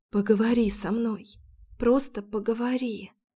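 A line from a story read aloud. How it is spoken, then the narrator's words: Whispered. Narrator (Russian): прошептала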